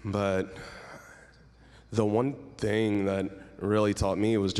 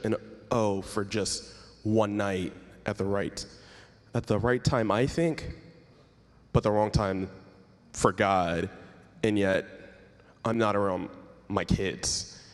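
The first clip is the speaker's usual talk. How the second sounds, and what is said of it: Choked-up, emotional voice. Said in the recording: “I got a little choked up there”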